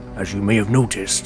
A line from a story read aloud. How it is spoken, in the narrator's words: he said in a low voice so that the two girls could not hear